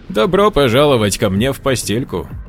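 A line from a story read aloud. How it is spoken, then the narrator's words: Amused chuckle. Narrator (Russian): Хохотнул он, обретая, наконец, чувство утерянного юмора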